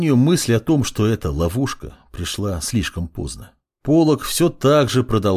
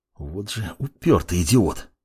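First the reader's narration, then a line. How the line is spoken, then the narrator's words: Hissing mage. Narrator (Russian): прошипел маг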